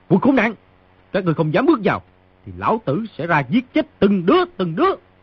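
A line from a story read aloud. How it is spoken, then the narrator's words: Shouting. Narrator (Vietnamese): người trong phòng quát tiếp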